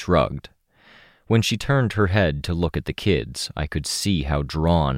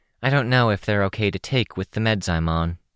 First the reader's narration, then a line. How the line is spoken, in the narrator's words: said